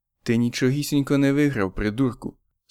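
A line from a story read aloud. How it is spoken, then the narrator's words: Calm. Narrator (Ukrainian): спокійно промовив він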